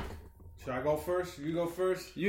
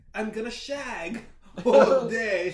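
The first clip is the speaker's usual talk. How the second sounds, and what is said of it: Mock British accent. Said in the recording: “his accent for like a week. Yeah. He's going to talk like blokes. Austin Powers.”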